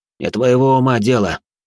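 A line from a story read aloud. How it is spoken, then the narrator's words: Through gritted teeth, ghost. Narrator (Russian): процедил сквозь зубы призрак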